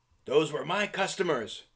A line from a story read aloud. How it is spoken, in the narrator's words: Grista cried